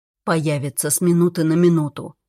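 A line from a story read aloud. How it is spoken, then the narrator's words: Grim warning. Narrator (Russian): мрачно предостерег Даггер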